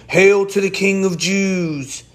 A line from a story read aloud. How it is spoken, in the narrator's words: they mocked him, saying